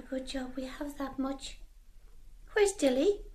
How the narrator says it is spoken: Katie said quietly

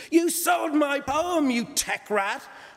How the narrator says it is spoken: Angelica screamed

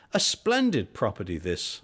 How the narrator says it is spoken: cried

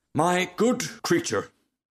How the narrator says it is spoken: cried the rocket in a very haughty tone of voice

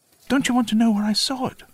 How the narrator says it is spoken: Nettie squeaked

